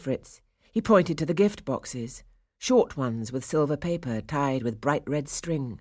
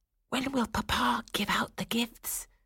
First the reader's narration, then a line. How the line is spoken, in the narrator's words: Fritz whispered to Clara